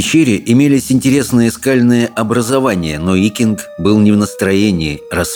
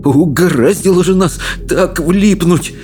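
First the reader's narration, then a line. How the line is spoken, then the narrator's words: Trembling moan. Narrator (Russian): простонал рыбий ног, дрожа всем телом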